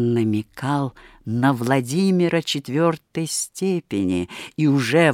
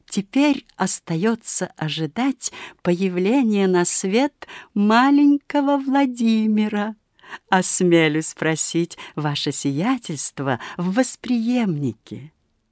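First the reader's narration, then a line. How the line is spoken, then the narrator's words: Suppressing laughter. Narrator (Russian): Модест Алексеевич приложил два пальца к губам из осторожности, чтоб не рассмеяться громко, и сказал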